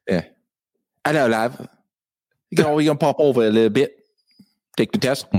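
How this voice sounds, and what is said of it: Poor put-on British accent. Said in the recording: “Your British accent. ... Jamie Kennedy's accent was horrible when he did the British accent.”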